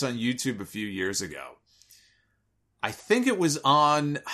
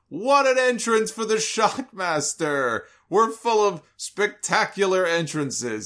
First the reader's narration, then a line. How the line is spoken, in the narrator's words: he was laughing as he was saying it